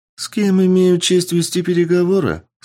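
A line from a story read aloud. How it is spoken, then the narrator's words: Sweet-voiced declaration. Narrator (Russian): Сладким голосом заявила светловолосая красавица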